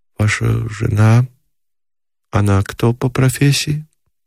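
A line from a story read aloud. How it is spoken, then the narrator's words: Hesitant uncertain question. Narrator (Russian): сказала она и, явно колеблясь, спросила неуверенно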